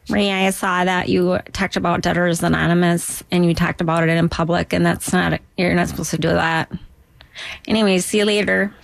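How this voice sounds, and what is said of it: Duluth Minnesota accent. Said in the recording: “unless I've grown up with the accent. Like, oh, I can do that accent. ... I can do Duluth because that's where I'm from.”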